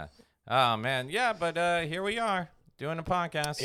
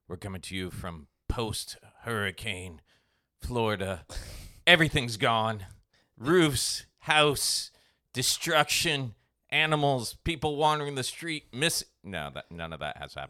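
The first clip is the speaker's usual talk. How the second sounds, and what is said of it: Dramatic announcer-style voice. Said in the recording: “you're doing that voice. ... dramatic. ... That was my dramatic.”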